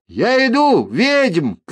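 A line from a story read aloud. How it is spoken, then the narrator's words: Shouting. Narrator (Russian): крикнула Мильва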